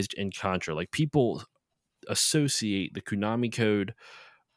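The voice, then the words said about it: Philly-accented pronunciation of associate. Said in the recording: “I said that really Philly, like associate ... I don't know if I'm fucking speaking with a Philly accent anymore”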